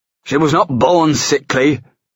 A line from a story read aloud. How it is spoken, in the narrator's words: he barked